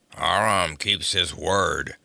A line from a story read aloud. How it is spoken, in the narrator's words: grunted yet another